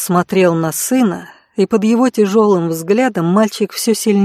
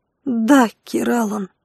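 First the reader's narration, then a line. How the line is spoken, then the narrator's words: Barely audible reply. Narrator (Russian): едва слышно ответил Даррен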